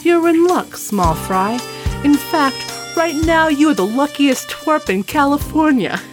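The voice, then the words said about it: Generic New York gangster accent. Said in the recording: “I'm making him from New York or whatever accent that is. But it's just generic gangster accent”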